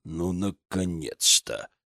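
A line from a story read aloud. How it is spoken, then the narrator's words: Grumbling marshal. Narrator (Russian): пробурчал маршал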